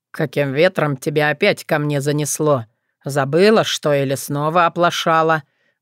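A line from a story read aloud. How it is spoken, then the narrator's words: Menacing question. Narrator (Russian): грозно вопросил Кощей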